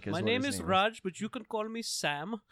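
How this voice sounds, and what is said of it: Put-on non-British foreign accent. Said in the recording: “English was good, but he definitely had an accent... not a British one.”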